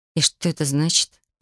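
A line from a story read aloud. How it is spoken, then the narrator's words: Muttered. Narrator (Russian): пробормотала я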